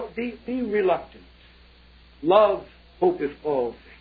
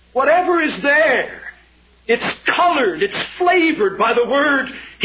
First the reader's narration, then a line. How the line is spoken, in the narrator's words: he cried